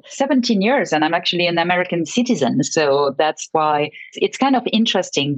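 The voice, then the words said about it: French accent in English. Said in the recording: “my own accent ... after living in the States for 17 years, my accent would be much better ... as soon as you open your mouth, people say, oh, you're French.”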